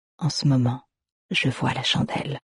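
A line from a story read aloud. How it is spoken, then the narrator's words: Whispering. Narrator (French): chuchota-t-il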